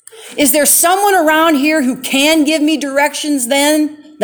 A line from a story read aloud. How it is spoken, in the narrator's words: raised his voice